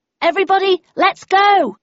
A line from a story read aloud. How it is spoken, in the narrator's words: I shouted